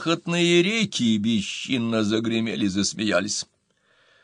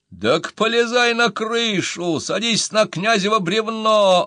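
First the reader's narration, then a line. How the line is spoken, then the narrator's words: Mischievous shout. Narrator (Russian): озорно кричал Щеколдин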